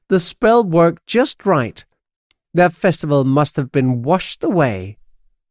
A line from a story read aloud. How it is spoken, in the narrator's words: laughs